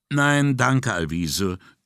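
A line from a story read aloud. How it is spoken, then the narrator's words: Hasty. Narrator (German): erklärte er hastig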